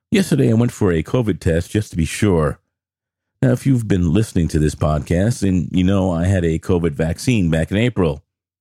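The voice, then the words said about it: Sick voice, sore throat. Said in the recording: “I'm sure you can tell from my voice that I'm a little off today ... I developed a sore throat”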